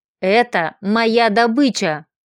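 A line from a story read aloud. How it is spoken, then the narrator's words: Vicious growl. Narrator (Russian): злобно зарычал зверь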